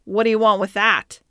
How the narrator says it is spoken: growled the carter

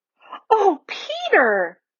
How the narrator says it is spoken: exclaimed Lucy

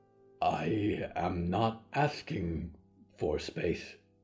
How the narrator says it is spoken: Diggory said quietly

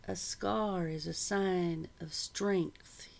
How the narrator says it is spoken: he said quietly

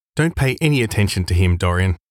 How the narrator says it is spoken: said the painter

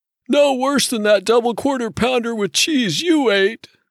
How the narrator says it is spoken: Ray said in a voice wheezy with pudding roll

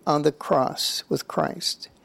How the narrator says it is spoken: Francis replied tenderly

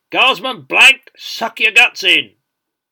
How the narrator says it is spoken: he bellowed

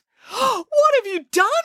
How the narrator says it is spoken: cried Alibaba

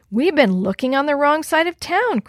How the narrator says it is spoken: Chris said excitedly

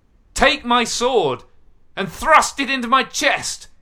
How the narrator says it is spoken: yelled Saul

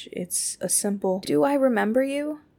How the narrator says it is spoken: She asked, her voice wavering

